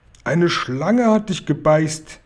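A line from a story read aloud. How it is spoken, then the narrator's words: Loud shout. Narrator (German): rief er laut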